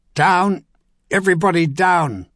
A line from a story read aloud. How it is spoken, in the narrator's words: Philip Osgood shouted